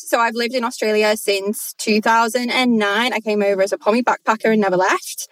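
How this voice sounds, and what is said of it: Strong northern English accent. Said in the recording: “I'm originally from the UK. You can hear that twang, big twang. I'm from the north of England.”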